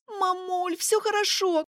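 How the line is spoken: Shouted. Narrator (Russian): Крикнула

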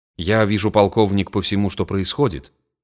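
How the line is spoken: Plain. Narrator (Russian): сказал он

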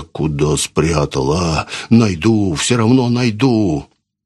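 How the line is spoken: Hoarse grumbling. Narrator (Russian): хриплое ворчание

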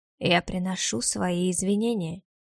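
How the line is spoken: Low voice, close. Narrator (Russian): сказал он низким голосом, склонившись ко мне чуть ближе

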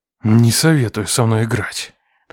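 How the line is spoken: Growled. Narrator (Russian): прорычал он

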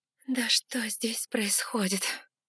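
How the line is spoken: Exhausted breathless exhale. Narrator (Russian): выдохнула я, бессильно повиснув

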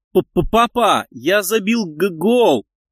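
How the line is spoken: Stammering shout, boy. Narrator (Russian): Сильно заикаясь, выкрикнул мальчик

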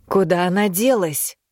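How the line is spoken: Muffled voice from behind. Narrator (Russian): раздался сзади приглушенный голос

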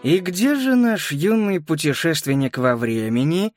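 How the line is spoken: Sly, mocking man. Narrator (Russian): ехидно спросил мужчина в черном костюме

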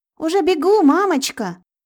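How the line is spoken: Shouted reply. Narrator (Russian): крикнула в ответ Айрона

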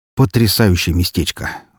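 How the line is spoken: Sighing. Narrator (Russian): вздохнул Трой

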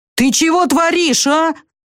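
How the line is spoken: Yelling angrily. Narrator (Russian): заорал он на Вику

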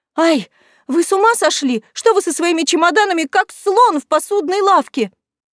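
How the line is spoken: Cried out. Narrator (Russian): вскрикнула она

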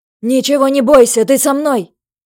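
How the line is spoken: Shout. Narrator (Russian): прокричал он

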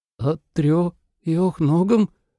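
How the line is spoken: Pale boy's faltering babble. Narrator (Russian): пролепетал пухлый мальчишка бледнее

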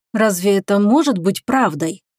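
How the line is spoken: Confused mutter. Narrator (Russian): Растерянно пробормотал он

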